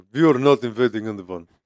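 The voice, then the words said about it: Put-on Russian accent. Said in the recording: “I don't know if that's what they sound like. They're like ... My accents are on point. On point. I'm telling you.”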